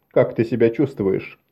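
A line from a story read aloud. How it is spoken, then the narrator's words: Plain. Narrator (Russian): спросил он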